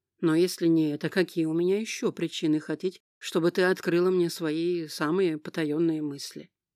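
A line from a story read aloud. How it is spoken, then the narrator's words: Sighing. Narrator (Russian): снова вздохнула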